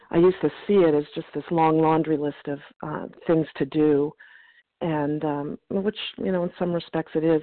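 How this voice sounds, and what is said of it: Strained, failing voice. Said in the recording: “I'm going to lose my voice.”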